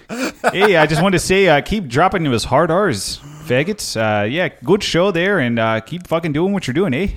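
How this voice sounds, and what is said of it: Put-on Midwestern Michigan or Wisconsin accent. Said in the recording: “That guy sounded Midwestern as shit ... I think that was a Michigan accent you just did, or Wisconsin.”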